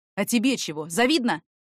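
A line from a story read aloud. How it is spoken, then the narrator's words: Snapped back. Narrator (Russian): огрызнулся в ответ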